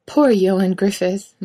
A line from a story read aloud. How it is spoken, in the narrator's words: Mike laughs quietly but still real